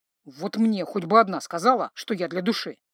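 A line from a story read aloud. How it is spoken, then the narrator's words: Grumbling stranger. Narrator (Russian): проворчал незнакомец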